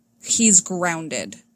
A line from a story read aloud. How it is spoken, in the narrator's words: he says